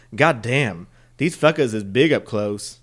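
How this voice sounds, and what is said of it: Put-on Southern US accent. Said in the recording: “why he has a southern accent”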